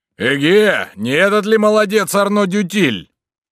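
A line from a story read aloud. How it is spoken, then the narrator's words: Shouting. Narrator (Russian): один из рейтеров закричал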